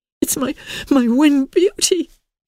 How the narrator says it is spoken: she sobbed

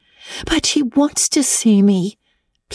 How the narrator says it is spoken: pleaded Anne

